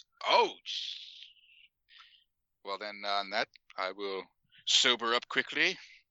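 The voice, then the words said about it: Badly done put-on accent. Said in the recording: “I don't know why I'm using an accent now. That was terrible.”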